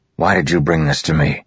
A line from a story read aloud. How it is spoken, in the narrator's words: He said harshly